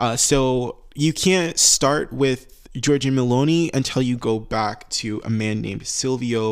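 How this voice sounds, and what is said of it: Usual voice. Nothing is said of it.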